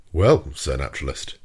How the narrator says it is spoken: said the Canadian in a slightly jovial tone

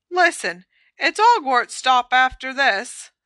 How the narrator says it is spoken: said Stan brightly

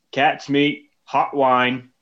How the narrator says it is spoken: like a vendor pretty much walking around the baseball game, and he's yelling

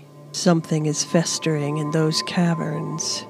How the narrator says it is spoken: Rovash muttered to himself

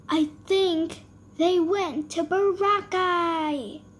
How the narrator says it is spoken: shouted John

